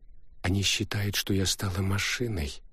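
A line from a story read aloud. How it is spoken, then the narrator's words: Sad smile. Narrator (Russian): грустно улыбнулась Лариса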